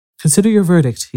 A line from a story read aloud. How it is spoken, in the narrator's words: he said to the jury in a low, trembling voice